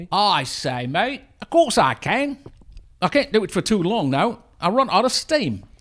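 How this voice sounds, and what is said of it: Put-on Cockney accent. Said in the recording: “Can you do an authentic Cockney accent for me?”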